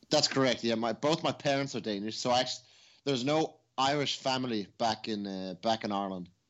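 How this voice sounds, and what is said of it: Irish-tinged Danish speaker's accent. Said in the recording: “I'm trying to decipher your accent because it's a fascinating accent. ... you're Danish ... but you were actually brought up in Ireland”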